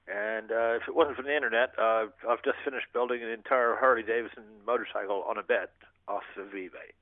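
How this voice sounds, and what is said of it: American-sounding accent. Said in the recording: “are you putting on an American accent? ... No. ... I'm Canadian”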